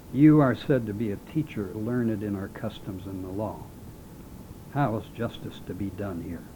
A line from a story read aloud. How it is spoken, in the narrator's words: continued gravely